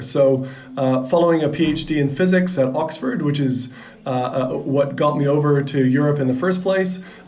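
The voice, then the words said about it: Canadian English accent. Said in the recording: “as you can probably hear by my accent, I'm a Canadian by birth”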